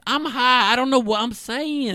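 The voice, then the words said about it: Imitates another person's voice. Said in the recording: “Great Carlisle impression ... It's a horrible impression.”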